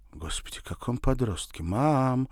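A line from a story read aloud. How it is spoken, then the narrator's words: Near moan. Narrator (Russian): почти простонала Александра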